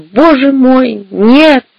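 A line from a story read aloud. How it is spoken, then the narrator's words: Sobbing. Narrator (Russian): разрыдался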